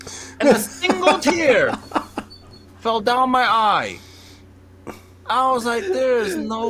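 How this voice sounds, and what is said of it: Usual voice. Nothing is said of it.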